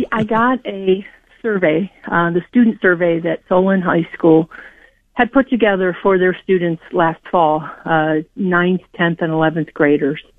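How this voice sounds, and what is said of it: Out of breath, breathless speech. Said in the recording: “I'm just jumping off the treadmill here. I'm out of breath.”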